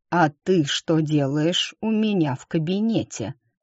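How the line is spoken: Hissed, syllable by syllable. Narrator (Russian): процедила она по слогам

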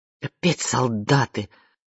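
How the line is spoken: Angry mutter. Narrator (Russian): зло пробормотал Жиль Фурнье

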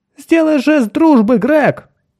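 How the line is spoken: Shout. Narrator (Russian): крикнул Кертис

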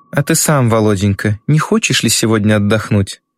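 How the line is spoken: Furious yet tender reply. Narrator (Russian): Бешено и ласково отвечает Рублева

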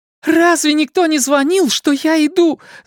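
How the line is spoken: Shouting. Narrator (Russian): закричала Рэйчел

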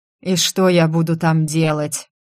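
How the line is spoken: Hoarse tired voice through speakers. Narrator (Russian): раздался из динамиков хриплый уставший голос

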